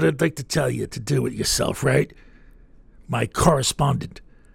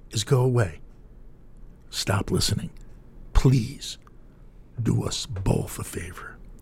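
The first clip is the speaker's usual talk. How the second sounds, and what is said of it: Very calm, measured delivery. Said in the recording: “tell you in a very calm voice,”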